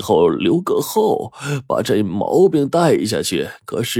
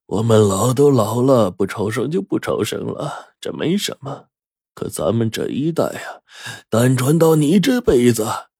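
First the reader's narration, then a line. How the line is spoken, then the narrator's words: Sighing old man. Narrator (Chinese): 我爷爷却因此叹息了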